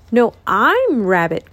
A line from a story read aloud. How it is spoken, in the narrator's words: cried the rabbit